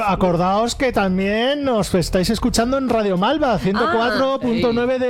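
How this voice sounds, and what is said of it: Usual voice. Nothing is said of it.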